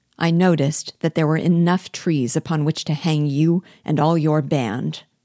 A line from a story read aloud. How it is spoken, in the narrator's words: I replied coldly